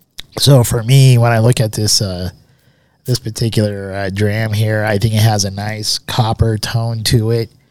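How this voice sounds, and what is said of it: Sick, slightly congested voice. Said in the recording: “I'm still getting over this cold here. You can probably still hear it in my voice.”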